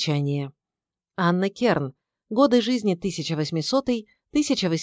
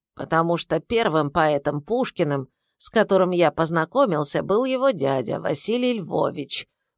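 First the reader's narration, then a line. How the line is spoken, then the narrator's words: Grumbling. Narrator (Russian): проворчал Петр Александрович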